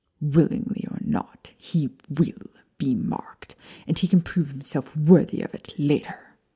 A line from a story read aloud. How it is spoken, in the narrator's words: Lucius hissed